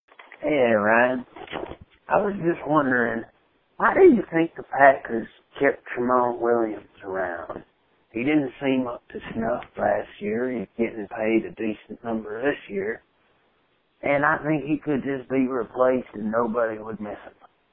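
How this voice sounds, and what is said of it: Non-local, non-Chicago accent. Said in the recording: “by the accent you're not from Chicago. So either you're goofing with an accent or you're not a native”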